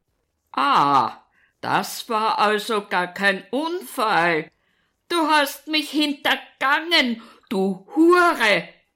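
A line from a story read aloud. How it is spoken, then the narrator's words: Furious roar. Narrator (German): brüllt er weiter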